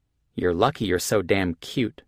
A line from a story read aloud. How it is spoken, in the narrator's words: she muttered